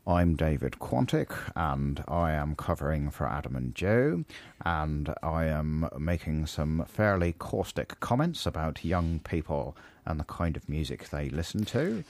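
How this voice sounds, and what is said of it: Impression of David Quantick. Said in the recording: “Can you do a David Quantick impression? ... That's not a very good impression. ... I thought that was very good.”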